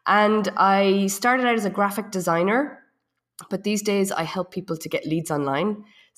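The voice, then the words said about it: Irish accent. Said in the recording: “you can tell by the accent that I'm not from here. I'm from Ireland.”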